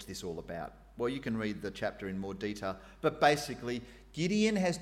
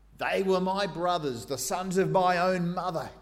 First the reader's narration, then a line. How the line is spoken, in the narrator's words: Gideon exclaimed